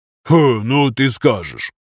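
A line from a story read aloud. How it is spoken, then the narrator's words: Snorting, dismissive. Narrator (Russian): фыркнул Зимников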